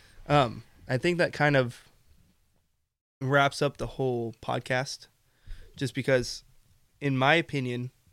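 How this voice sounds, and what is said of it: Strained, fading voice. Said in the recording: “I'm dying. I'm actually dying. See, I'm losing my voice now.”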